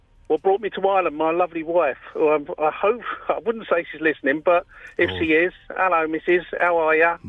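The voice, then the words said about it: London accent. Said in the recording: “How a lovely accent ... You haven't lost the accent ... I'm originally from London ... London Battersea”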